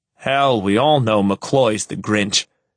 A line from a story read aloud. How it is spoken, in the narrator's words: Peterson bellows drunkenly